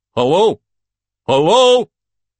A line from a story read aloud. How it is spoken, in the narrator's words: shouts Igor's voice